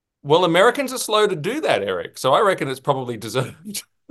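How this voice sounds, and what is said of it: Australian accent. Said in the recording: “You get to come from your country, Australia ... With your cool little accent ... having an Australian accent”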